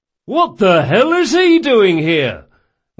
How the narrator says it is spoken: one of them hollered

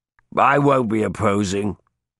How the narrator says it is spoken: Metwys grunted

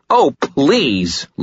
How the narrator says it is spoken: Lisa cried

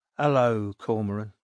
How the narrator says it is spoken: said Creed, in a flat voice which retained its working-class East London accent

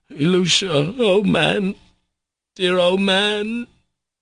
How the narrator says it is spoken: sobbing and wailing, he began crying out

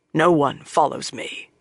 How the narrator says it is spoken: he said sharply

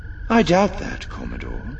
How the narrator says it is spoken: Thrawn said calmly

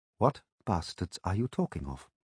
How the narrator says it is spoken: I said, as calmly as I could

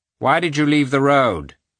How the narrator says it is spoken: he asked dryly

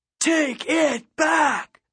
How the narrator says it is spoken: the PA roared

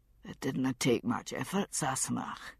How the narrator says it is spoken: he said, his voice soft and husky from sleep

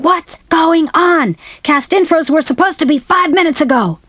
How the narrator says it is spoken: Mickey Ross, one of the producers, came storming into my dressing room screaming

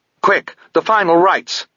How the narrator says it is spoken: Sabriel snapped

